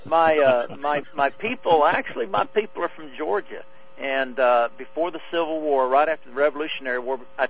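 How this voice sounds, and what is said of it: Southern American twang accent. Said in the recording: “I'm originally from Arkansas ... the twang comes naturally to you ... It does.”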